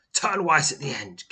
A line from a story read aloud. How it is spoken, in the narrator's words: gasps Owls